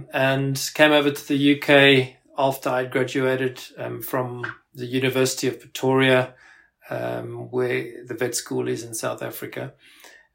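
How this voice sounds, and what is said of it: South African accent. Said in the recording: “I actually uh, grew up in South Africa. Uh, you might you might be able to pick that up from my accent”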